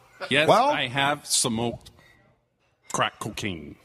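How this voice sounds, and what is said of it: Doug Ford impression. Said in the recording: “can you do that Doug Ford impression”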